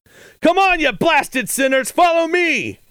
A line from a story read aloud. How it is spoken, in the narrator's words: Morgan yelled